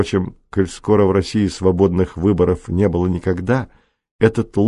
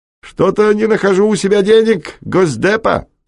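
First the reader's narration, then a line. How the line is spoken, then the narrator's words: Shouting to a crowd. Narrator (Russian): кричал в толпу Ройтман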